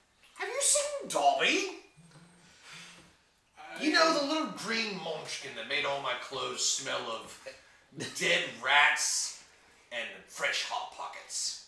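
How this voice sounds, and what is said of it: Christopher Walken impression, drifting British. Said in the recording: “Christopher Walken may blend into some sort of a British accent at some point”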